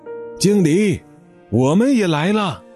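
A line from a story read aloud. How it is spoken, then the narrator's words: Repeated shouts from behind. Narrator (Chinese): 从他的身后又传来了一声声的喊叫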